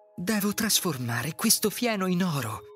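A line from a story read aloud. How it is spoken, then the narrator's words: Sighing. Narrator (Italian): sospirò Sofia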